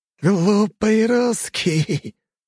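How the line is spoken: Laughing killer. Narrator (Russian): рассмеялся убийца

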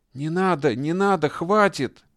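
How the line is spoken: Screaming, moaning, wheezing, sobbing. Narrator (Russian): Товарищ Хрущ кричал, стонал, утробно хрипел, плакал

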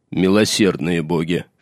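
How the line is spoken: Old bear muttering. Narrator (Russian): пробормотал старый медведь

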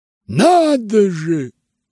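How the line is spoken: Exclaiming. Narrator (Russian): воскликнул он

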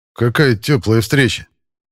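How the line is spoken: Smirking grunt. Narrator (Russian): хмыкнул я

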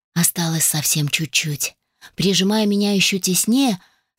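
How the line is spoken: Whisper. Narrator (Russian): шепнул Мейнер

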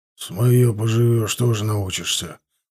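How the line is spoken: Grumbling mutter. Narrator (Russian): буркнул Геннадич

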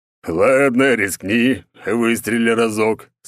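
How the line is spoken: Growl. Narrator (Russian): снова рыкнул он

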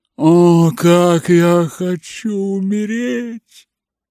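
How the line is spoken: Moaning. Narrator (Russian): стонала она

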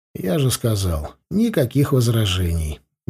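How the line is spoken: Indifferent tone. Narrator (Russian): безразличным тоном ответил я

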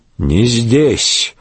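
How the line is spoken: Grumbling. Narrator (Russian): буркнул на брата Вольфгер

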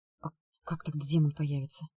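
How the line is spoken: Whisper. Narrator (Russian): прошептала я

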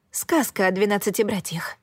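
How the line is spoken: Whispered. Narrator (Russian): прошептала я

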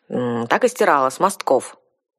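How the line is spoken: Grumbling. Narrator (Russian): проворчала девушка

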